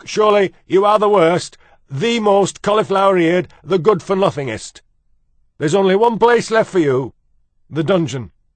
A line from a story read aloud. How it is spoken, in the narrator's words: shouted cook